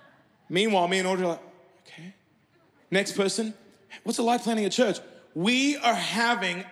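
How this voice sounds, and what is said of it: Usual voice. Nothing is said of it.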